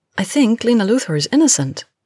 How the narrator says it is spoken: Kara immediately blurted out

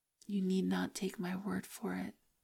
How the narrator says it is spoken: she says quietly

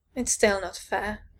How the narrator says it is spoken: he muttered half-heartedly

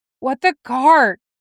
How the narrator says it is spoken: He wheezed

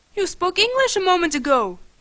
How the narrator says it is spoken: he accused me angrily

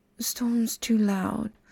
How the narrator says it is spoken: Floyd murmured, voice slurred with drowsiness

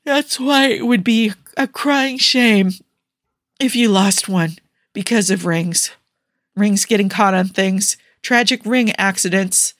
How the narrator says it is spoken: yawned

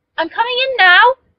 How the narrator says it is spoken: so loudly

